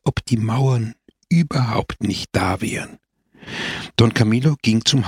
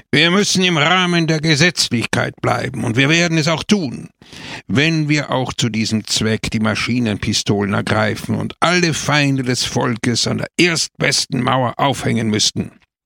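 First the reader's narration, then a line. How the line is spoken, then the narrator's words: Sharp speech. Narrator (German): da er ein Extremist war, sprach er scharf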